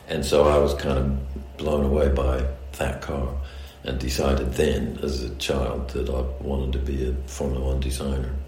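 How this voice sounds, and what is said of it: Mid-Atlantic accent, part English part American. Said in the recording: “my accent now is, you might call it mid-Atlantic, so part English, part American. If I go to America, they think I sound English, but in England, they think I sound American.”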